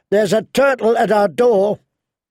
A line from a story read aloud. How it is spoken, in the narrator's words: Pip shouted